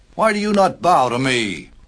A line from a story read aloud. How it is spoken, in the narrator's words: cried Haman